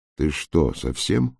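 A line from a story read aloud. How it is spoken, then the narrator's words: Grumbling mutter. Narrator (Russian): буркнул лис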